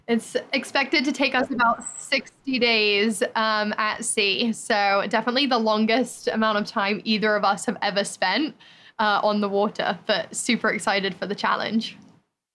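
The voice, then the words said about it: English accent. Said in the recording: “Do you have an accent? Where's your accent from? ... I'm actually from England”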